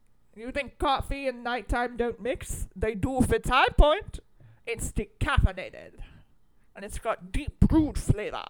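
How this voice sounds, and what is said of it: Imitates another person's voice. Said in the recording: “That's my Lauren Bacall impression.”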